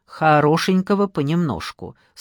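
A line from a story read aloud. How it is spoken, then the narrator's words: Stern. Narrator (Russian): строго сказала Надежда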